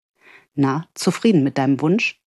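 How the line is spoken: Soft laugh. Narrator (German): lachte leise

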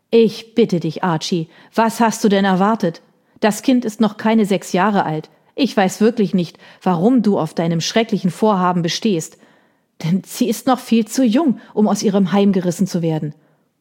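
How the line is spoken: Sharp voice. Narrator (German): sagte Lady Gordon mit scharfer Stimme

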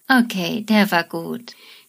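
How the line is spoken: Laughing. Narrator (German): Amy sagt dann lachend

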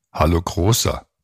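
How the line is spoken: Plain. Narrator (German): sagte Herbert

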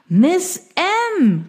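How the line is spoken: Man calling. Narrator (German): rief er

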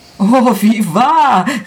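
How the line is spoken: Overflowing emotional exclamation. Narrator (German): rief ich aus mit vollem, überströmenden Gefühl

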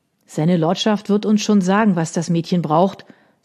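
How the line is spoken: Gruff. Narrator (German): sagte barsch

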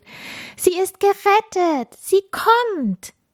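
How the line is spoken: Excited group calling. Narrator (German): Die ersten Sternenkinder und Schneeflocken konnten Funkieler am Horizont erkennen und riefen aufgeregt

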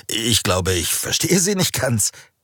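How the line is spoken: Nervous laughing reply. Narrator (German): Raphael lachte nervös auf und erwiderte

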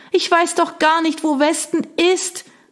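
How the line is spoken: Calling, lost in wind. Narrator (German): rief sie, aber der Wind riss ihr die Worte von den Lippen

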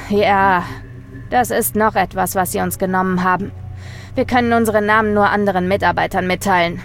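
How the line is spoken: Groaning answer. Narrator (German): mit einem Stöhnen antwortete

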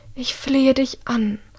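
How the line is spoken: Mother's breathy whisper. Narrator (German): haucht ihre Mutter

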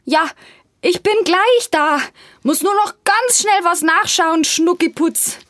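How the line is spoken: Calling out. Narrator (German): ruft ihr entgegen

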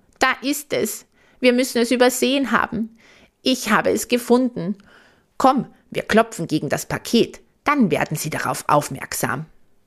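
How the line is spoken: Calling out. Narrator (German): ruft er

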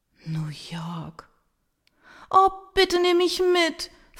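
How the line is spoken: Desperate pleading across room. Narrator (German): fleht Verena händeringend quer durchs Büro

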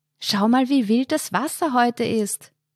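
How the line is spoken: Called, nearly lost in wind. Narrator (German): rief sie Markus zu, ihre Stimme wurde fast vollständig vom Wind verschluckt

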